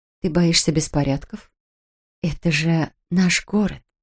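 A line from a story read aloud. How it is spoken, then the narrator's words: Unctuous, sugary tone. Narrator (Russian): елейным тоном произнесла Кэт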